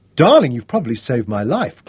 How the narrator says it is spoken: Claire exclaimed

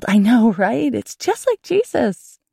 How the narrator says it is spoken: The other girl squealed

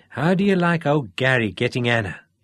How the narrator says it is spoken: Dennis chuckled

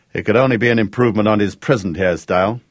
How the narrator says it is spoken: Gareth observed dryly

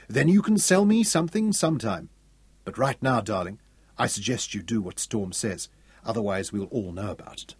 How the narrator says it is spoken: Irene murmured

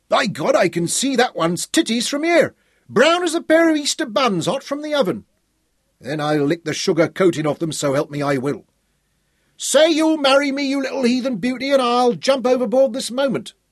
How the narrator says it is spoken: one of the topmastmen shouted

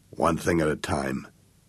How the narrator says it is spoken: growled Jake

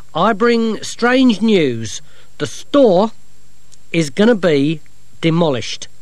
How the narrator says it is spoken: he said loudly

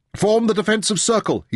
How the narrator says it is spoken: he shouted

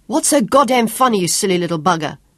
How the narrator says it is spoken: Sean yelled at him furiously

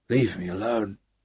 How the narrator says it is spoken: Gary groaned

